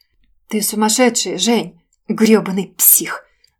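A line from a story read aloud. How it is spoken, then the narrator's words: Surprised whisper under breath. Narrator (Russian): Удивленно прошептала себе под нос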